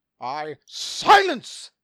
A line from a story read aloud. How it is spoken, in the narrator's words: Michael roared